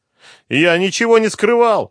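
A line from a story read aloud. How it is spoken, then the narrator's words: Shout. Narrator (Russian): закричал Кириллин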